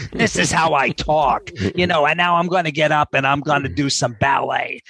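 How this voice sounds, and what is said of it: Very thick New York accent. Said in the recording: “He had the thickest New York accent you've ever heard in your life. He talked like this.”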